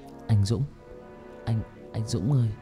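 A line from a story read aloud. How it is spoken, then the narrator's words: Soft calling. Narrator (Vietnamese): Nó như chợt tỉnh, nó gọi tôi khe khẽ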